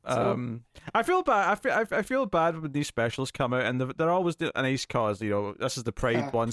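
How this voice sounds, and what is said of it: British accent. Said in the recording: “Just with your accent, it sounded a bit harsh ... that's with your British ears ... the way his accent goes”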